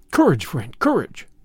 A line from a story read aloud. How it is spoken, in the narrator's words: I cried